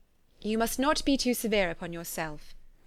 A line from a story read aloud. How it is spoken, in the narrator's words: replied Elizabeth